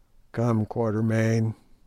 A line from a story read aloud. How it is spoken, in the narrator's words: groaned Sir Henry